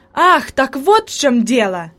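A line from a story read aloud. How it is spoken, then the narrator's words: Exclaiming in realization. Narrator (Russian): воскликнул Себастьян, понимая причину появления привидения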